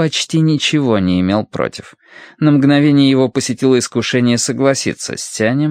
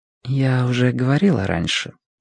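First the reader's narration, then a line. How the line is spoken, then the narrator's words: Quiet. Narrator (Russian): тихо произнесла Сюйлян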